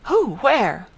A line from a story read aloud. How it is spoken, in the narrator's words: Gold asked more eagerly